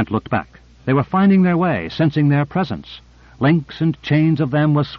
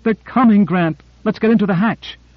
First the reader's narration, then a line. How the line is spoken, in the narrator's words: She cried out